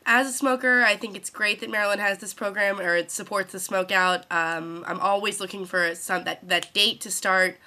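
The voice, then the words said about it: Congested voice with sore throat. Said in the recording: “I'm actually sitting here completely sick from my smoking. I have a sore throat ... I'm congested”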